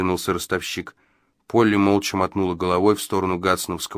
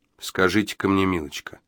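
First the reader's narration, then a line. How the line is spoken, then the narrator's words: Calm, even question. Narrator (Russian): удивительно ровным и спокойным тоном спросил Джо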